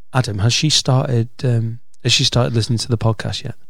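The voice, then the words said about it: Whispering. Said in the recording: “I'm whispering as well.”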